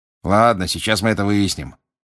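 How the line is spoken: Grumbling. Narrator (Russian): проворчал мистер Диггери

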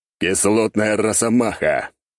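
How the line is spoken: Growled. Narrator (Russian): рыкнул я

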